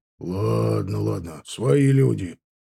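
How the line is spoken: Grumbled. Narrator (Russian): проворчал тот

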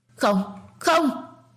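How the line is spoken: Hoarse terrified scream. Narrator (Vietnamese): gào khàn cổ họng, cơ thể của cô còn run rẩy vì sợ hãi

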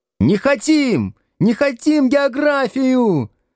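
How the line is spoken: Crowd yelling from all sides. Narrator (Russian): орали со всех сторон

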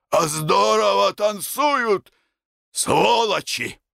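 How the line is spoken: Hoarse, forced cheer. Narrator (Russian): хотел сказать весело, но сказал по-прежнему хрипло

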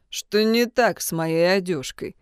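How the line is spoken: Gloomy question. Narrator (Russian): мрачно спросил Джун

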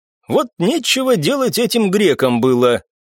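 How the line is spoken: Wry snort. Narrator (Russian): хмыкнул я

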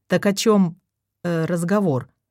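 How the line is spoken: Plain. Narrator (Russian): спросил Ячкин

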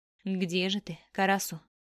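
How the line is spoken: Forceful through gritted teeth. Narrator (Russian): процедил он со всей силы

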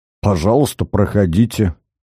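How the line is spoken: Through gritted teeth. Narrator (Russian): процедил Карась

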